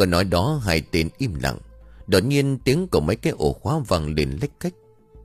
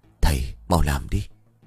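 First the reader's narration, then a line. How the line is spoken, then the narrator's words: Soft. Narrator (Vietnamese): Hắn khẽ nói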